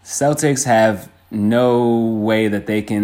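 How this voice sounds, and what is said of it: Usual voice. Nothing is said of it.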